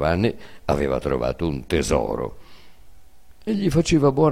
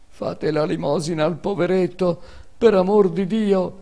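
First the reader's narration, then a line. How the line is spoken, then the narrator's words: Beggar's plaintive cry. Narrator (Italian): gridava il mendico con voce lamentevole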